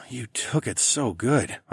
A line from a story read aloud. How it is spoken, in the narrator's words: I murmured